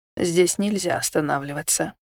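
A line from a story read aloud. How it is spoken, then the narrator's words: Gentle, soft. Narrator (Russian): мягко сказал водитель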